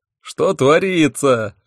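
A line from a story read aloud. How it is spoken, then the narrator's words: Roared. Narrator (Russian): взревел Хехельф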